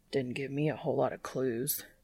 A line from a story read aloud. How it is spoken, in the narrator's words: Dean grumbles